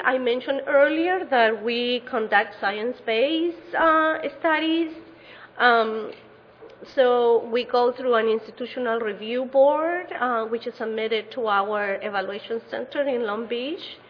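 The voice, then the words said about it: Chilean Spanish-accented English. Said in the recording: “my accents, you can see that I wasn't born or raised here in the United States. I speak Spanish as a first language ... a proud Chilean”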